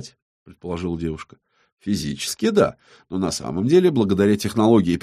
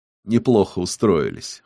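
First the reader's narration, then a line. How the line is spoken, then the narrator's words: Amused snort. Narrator (Russian): хмыкнул Йенсен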